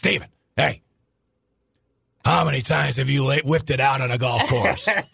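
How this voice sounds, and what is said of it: Imitates another person's voice. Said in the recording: “Good impression, by the way.”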